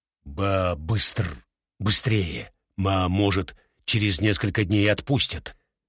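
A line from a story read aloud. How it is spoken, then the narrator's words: Quiet, hesitant, policeman. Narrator (Russian): Полицейский Заика неуверенно тихо проговорил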